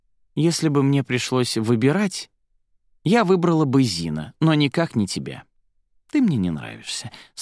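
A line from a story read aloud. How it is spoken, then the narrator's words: Calm reply. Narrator (Russian): спокойно отозвалась Арадия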